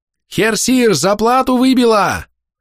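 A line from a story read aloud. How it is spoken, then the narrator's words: Bellowed from the hatch. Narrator (Russian): заорала появившаяся в трюмном люке голова походного мастера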